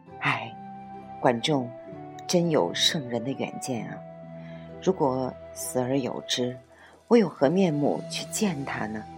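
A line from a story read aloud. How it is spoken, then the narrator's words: Tearful, regretful sighing. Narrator (Chinese): 连连叹息，流着悔恨的泪水说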